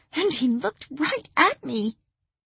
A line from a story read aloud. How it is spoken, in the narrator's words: the petite blonde sobbed